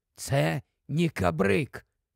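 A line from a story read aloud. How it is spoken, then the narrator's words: Whispered explanation. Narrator (Ukrainian): шепнув, пояснюючи Тіквік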